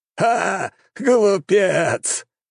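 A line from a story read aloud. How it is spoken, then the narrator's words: Loud mocking laughter. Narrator (Russian): расхохотался правитель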